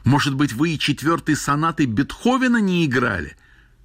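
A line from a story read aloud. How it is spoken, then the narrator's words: Foolish shouting. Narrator (Russian): Травин закричал совсем глупо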